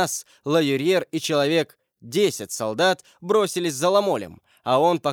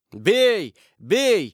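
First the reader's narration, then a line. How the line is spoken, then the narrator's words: Crowd yelling. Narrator (Russian): вопили со всех сторон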